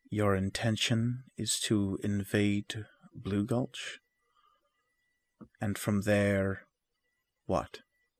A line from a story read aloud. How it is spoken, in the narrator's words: the old mage will say quietly